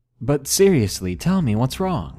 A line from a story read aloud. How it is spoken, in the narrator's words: I awkwardly laughed and said nervously